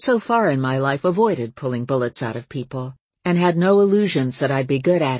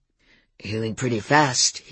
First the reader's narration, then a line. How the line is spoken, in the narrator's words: he grunted